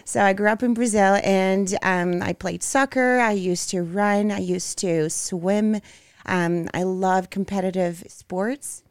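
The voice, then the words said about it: Brazilian-accented English. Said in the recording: “I grew up in Brazil. As you can see, you can hear my accent.”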